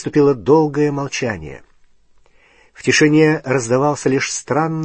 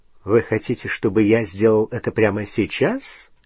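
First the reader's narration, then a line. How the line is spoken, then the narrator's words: Ironic question. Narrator (Russian): ироническим тоном спросил Снег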